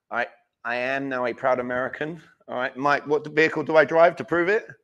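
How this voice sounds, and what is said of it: Charming non-American accent. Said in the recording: “you can probably tell I have an accent. I've been told that I'm very like charming, debonair.”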